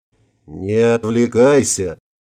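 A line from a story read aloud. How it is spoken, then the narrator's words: Growling. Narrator (Russian): зарычал Ингвар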